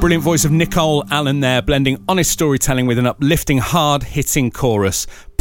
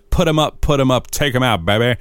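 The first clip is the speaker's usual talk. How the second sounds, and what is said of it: Put-on accent. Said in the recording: “I can't say that normally without putting on an accent”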